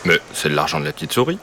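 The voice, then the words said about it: Deep gruff character voice. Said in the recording (French): “avec sa grosse voix.”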